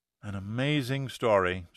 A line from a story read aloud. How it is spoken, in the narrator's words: said Yeager, almost wistfully